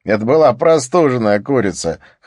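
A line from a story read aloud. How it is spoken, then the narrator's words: Chuckled. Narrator (Russian): хохотнул Скарра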